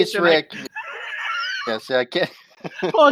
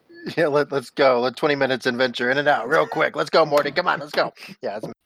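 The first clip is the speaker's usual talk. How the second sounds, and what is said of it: Impression of cartoon character Rick. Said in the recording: “impersonating Matt. Rick. I can't do Rick. ... That was such a good impersonation.”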